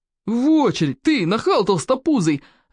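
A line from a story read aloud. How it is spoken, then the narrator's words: Gruff bark. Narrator (Russian): рявкнул крепкий орешек старший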